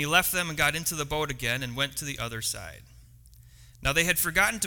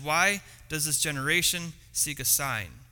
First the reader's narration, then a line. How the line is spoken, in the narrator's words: sighed deeply in his spirit and said